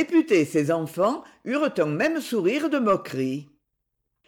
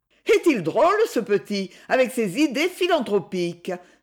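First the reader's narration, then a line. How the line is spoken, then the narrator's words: Exclaimed. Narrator (French): s'exclama Edmée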